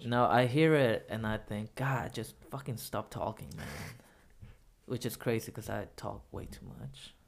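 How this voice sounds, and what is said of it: Very nasal voice with an accent. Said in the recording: “I hear my accent so much on recordings, and uh, I'm super nasally”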